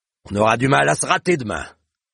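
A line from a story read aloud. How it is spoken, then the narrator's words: Sneering laugh. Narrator (French): ricana-t-il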